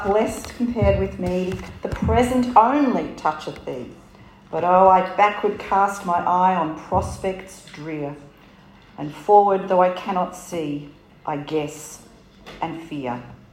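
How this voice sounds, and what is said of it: Strong hard-to-follow accent. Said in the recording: “Now, I probably need to translate half of that. Not only the accent”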